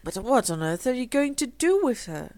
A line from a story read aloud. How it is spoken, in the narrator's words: cried Philip